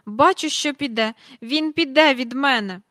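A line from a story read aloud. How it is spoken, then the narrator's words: Tearful, sniffling. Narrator (Ukrainian): Міс Жайворон якусь хвилину схлипувала в хустинку, тоді ж моргнула носом і сказала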